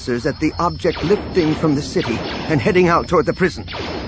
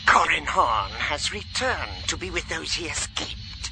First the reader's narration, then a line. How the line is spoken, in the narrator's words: she hissed